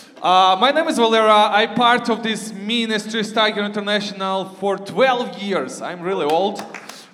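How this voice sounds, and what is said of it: Loud Ukrainian-accented English. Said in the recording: “my voice is too loud... If you hear this weird accent, I'm from Ukraine”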